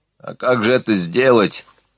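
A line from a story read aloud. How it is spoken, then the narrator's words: Mumbled, drenched young man. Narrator (Russian): пробурчал мокрый, как мышь, парень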